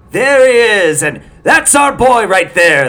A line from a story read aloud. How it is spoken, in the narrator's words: the men would shout